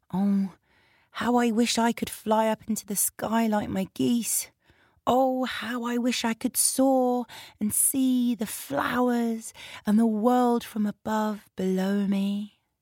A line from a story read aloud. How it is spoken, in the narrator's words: wistfully ... she would say quietly to herself